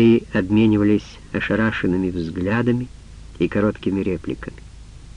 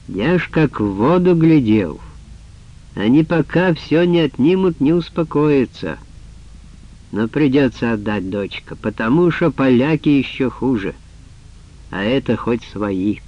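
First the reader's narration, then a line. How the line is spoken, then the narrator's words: Loud, injured man. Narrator (Russian): Инвалид с разбитым лицом громко сказал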